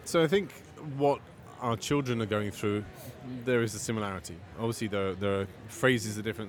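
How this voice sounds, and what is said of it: Slight non-American accent. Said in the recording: “I'm picking up a slight bit of accent. ... Clearly you're not from the United States”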